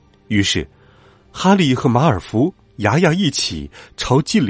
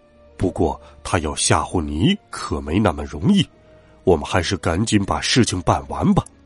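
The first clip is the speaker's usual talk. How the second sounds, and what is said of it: Quiet, hushed speech. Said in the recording (Chinese): “小声的对哈利说”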